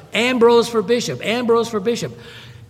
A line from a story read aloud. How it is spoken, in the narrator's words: the crowd took that up, and you've got these thousands of people shouting